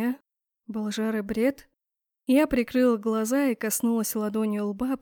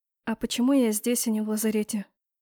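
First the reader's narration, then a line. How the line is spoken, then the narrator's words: Quiet question. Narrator (Russian): тихо спросила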